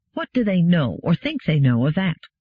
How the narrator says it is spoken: Gladia said sharply

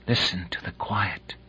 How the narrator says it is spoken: whispered Kalinian

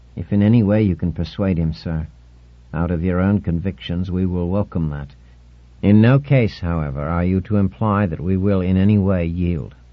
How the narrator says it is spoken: The chief counselor, gray-haired, said in a soft voice

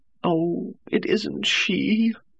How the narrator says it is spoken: she moaned

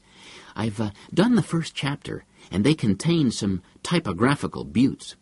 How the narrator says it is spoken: He said eagerly

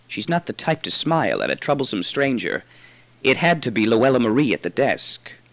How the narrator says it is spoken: He whispered to me again

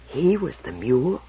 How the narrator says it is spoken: He whispered

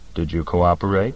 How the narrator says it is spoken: I asked in a flat, quiet voice

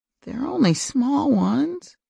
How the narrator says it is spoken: quavered Red

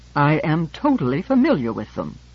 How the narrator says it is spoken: said George haughtily

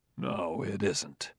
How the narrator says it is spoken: said Dr

